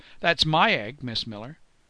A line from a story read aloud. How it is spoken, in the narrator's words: she called out